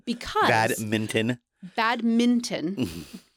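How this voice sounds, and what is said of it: Made-up put-on accent. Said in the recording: “What accent was that? ... I have no idea. I made it up.”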